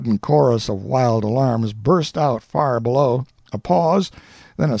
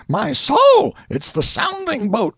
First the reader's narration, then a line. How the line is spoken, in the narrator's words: exclaimed